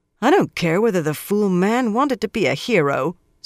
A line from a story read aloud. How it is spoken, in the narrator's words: Swan said sharply